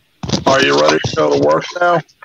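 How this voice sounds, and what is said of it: Flat monotone voice. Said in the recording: “very straight face, very monotone voice”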